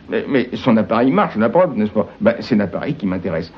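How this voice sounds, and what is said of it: Working-class Parisian French accent. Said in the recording (French): “Votre ton, vos manières, vos réactions, votre accent même, sont d'un parisien, mieux encore peut-être, d'un faubourien.”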